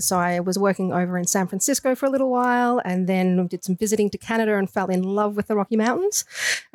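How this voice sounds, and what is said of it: Australian accent. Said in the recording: “I do have an Australian accent”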